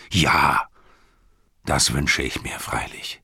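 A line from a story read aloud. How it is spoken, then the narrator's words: Plain. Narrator (German): sagte Denethor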